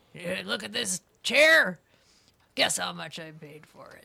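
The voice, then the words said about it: Impression, voice like a professional wrestler. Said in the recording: “That's a pretty good impression of her voice... she did sort of sound like a professional wrestler... she smoked like a fiend for about 80 years”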